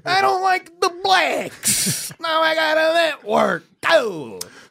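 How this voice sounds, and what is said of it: Anthony Cumia impression doing Dice. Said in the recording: “My Anthony Cumia is him doing dice.”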